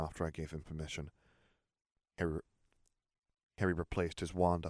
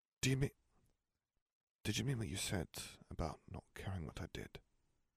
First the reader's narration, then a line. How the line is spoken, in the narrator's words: He murmured